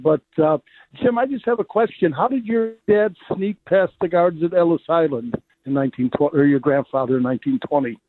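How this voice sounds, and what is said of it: Slightly raspy voice. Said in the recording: “I got a little raspy voice here”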